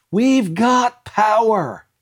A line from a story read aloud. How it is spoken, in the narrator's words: shouted